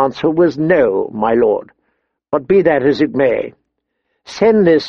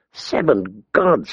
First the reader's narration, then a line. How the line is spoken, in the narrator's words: he murmured